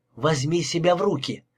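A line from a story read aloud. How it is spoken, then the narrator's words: Dry, curt. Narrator (Russian): сухо сказала она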